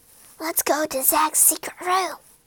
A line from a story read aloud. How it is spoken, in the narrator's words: they whispered